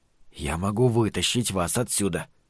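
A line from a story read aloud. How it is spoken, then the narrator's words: Whisper. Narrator (Russian): прошептал он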